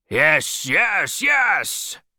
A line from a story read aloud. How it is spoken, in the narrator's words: cried the captain